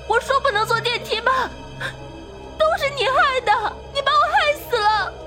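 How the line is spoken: Desperate sobbing shout. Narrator (Chinese): 傅一彤哭得涕泪横流，绝望地喊着

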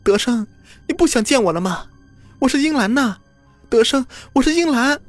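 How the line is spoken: Woman crying out, weeping. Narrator (Chinese): 张英兰……对着坑哭喊

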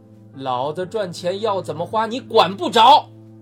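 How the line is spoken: Loud. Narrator (Chinese): 父亲大声说道

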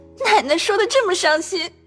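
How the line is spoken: Hastily stifling tears. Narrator (Chinese): 平儿连忙止住哭道

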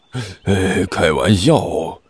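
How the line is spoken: Grumpy mutter. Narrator (Chinese): 小师妹没好气的嘀咕了一句

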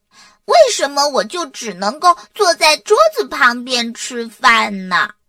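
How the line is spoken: Smiling mother. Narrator (Chinese): 妈妈笑笑说

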